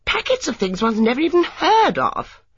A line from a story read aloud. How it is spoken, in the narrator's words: exclaimed Miss Hartnell